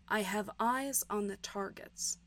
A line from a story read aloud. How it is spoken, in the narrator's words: whispered Eggsy